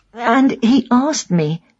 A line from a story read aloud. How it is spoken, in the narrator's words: she says in a choked voice